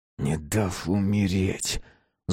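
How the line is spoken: Angry whisper. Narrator (Russian): зло прошептал Ярош

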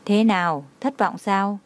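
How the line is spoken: Gentle, knowing smile. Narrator (Vietnamese): Trang Hạo Nhiên mỉm cười thấu hiểu, ôn nhu nói

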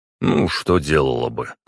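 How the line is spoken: Wry snort. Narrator (Russian): хмыкнул я

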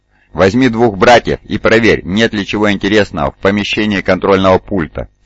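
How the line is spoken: Plain. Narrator (Russian): сказал он

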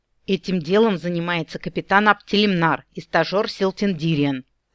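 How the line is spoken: Furious orc growl. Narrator (Russian): прорычал в конец рассвирепевший орк

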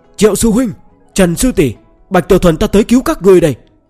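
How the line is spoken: Loud defiant shout. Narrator (Vietnamese): hắn cảm thấy sẽ có kẻ cho rằng mình sợ nên lập tức hét lớn

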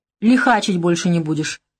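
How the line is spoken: Snorting. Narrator (Russian): хмыкнул Леша Шкаф

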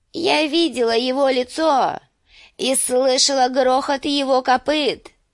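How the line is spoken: Thin trembling proclamation. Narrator (Russian): провозгласила она тонким дрожащим голосом

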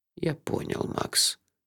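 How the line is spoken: Answered softly. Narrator (Russian): мягко ответил он

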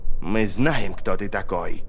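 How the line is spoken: Hiss. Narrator (Russian): прошипела Ферро

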